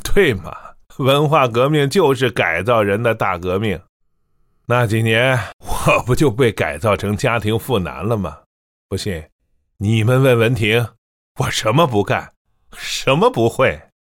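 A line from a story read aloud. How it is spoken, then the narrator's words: Laughing. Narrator (Chinese): 他笑道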